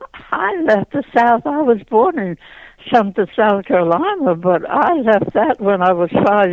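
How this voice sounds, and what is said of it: Slight Southern accent. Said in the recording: “I won't call it a southern drawl, but there is something else there besides Philadelphia in your history ... you have the accent ... You recognize that in my voice, and everybody does.”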